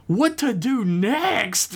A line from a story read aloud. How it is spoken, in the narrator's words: Becca cried out, still attempting to whisper despite how stupid her little cracker friend was being at the moment